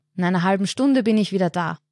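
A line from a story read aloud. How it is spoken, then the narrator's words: Calling out. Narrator (German): ruft er den Dorfbewohnern zu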